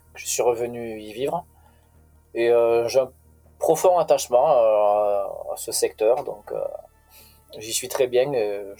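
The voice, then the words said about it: Slight regional French accent. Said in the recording (French): “on sent le, petit accent de la région quand tu parles”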